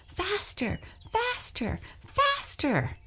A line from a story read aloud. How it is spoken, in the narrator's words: cried